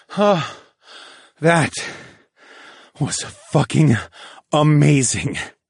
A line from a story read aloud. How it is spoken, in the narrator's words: I gasped temporarily exhausted from my climax